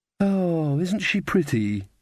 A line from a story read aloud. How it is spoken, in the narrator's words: sighed Magrat, the generous-hearted